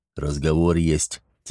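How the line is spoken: Quiet. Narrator (Russian): тихо сообщил он

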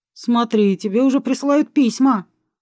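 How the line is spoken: Snort. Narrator (Russian): хмыкнул Алекс

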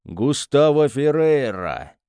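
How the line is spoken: Menacing proclamation. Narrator (Russian): грозно провозгласил Луи

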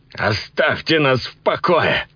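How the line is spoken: Yelling. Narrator (Russian): заорал

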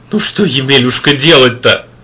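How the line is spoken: Sobbing wanderer. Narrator (Russian): всхлипнул странник

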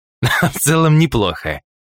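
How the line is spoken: Chuckled. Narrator (Russian): хохотнул Полос

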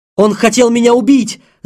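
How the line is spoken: Shouted. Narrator (Russian): закричал Кирилл

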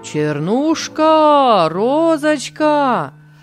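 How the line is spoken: Singsong calling. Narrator (Russian): позвал пастух нараспев

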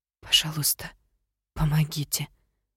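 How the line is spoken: Whispered. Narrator (Russian): прошептала я

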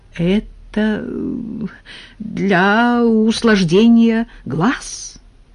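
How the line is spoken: Uncertain explanation. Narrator (Russian): неуверенно объяснил Николай Никитич

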